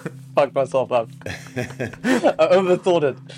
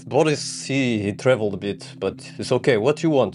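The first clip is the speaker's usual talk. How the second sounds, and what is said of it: Put-on Russian accent, struggling. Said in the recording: “I'm struggling with Russian accent”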